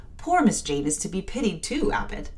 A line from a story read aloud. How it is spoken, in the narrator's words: Bessie, when she heard this narrative, sighed and said